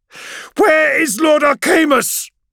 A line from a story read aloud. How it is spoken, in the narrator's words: she yells